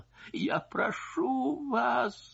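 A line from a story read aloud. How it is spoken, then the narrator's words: Sobbing voice. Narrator (Russian): слышалось сквозь ее рыдание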